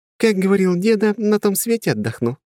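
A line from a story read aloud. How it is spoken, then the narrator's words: Cheerful laughing. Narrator (Russian): весело засмеялась Ольга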